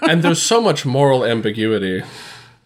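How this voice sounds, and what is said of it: Sarcastic delivery. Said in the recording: “that was sarcastic.”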